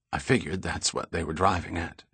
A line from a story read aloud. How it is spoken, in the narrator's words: she said in a whisper